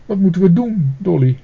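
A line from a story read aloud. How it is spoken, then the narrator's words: Sobbing. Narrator (Dutch): snikte Pluk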